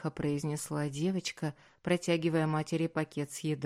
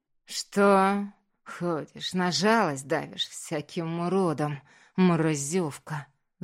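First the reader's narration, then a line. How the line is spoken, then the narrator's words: Drunk mother's angry hiss. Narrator (Russian): Злобно прошипела пьяная мамаша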